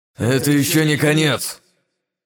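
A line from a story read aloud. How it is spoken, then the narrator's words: Several voices through teeth. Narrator (Russian): Процедили сразу несколько его туманных клонов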